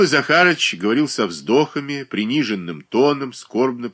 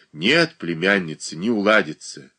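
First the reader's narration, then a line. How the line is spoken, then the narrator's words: Sighing again. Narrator (Russian): еще раз вздохнул Данил Захарыч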